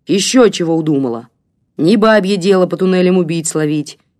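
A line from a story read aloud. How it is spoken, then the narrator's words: Sudden rough bark. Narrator (Russian): неожиданно грубо рявкнул комендант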